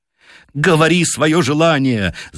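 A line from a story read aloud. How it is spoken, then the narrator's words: Loud, shrill scream. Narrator (Russian): закричала миссис Уайт громко и пронзительно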